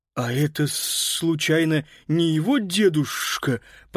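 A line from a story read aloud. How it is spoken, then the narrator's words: Lisping, from behind. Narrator (Russian): прошепелявил сзади Паскаль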